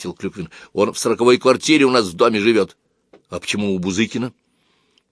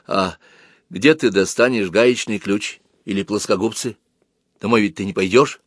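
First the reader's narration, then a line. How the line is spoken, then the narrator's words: Quiet question. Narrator (Russian): Она тихо спросила Клюквина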